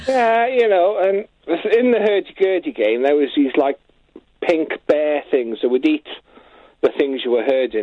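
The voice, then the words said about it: Welsh accent. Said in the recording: “It's how you say it with your Welsh accent.”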